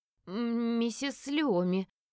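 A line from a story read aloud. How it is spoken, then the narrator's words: Maid stammering, babbling. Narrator (Russian): заикаясь, пролепетала горничная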